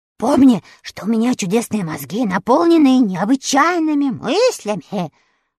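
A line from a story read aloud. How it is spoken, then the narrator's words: Shouted. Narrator (Russian): прокричал Страшила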